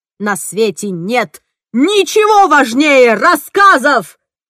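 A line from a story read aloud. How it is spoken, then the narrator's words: Yelling. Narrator (Russian): заорал он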